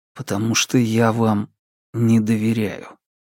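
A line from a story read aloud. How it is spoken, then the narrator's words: Quiet addition. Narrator (Russian): добавив вместо этого тихо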